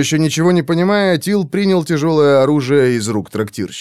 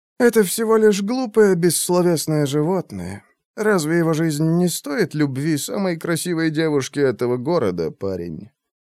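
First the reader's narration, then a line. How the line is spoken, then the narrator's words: Sad sigh. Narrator (Russian): грустно вздохнул Голубоглазый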